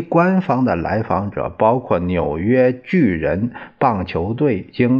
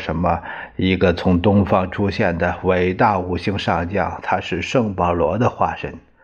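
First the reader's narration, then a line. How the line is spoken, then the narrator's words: Murmuring. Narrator (Chinese): 赫伯特·胡佛也喃喃地说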